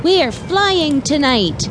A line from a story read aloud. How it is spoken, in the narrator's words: they shouted